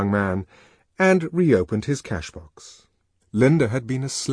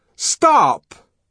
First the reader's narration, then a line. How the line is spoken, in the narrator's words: called the savage in a loud and ringing voice